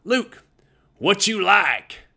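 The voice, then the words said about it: Thick Texas drawl impression. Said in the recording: “he had a thick Texas accent ... I'm going to sort of do my impression of Coach Tatum ... he had that Texas drawl”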